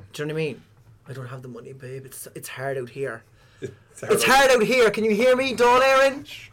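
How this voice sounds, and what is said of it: Loud, shouting voice. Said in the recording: “I'm shouting and roaring.”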